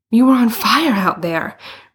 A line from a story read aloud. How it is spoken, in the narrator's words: Bruno panted